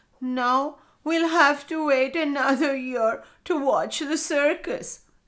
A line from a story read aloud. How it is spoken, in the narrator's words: said Coco, sobbing